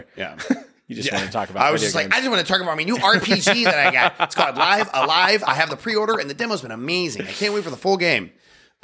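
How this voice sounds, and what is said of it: Funny put-on voice. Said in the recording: “You said that in a funny voice”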